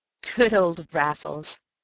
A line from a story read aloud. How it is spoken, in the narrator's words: I chuckled